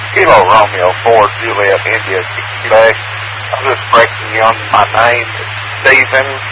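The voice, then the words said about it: Tennessee Southern US accent. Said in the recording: “I know it's hard to understand my Tennessee accent sometimes.”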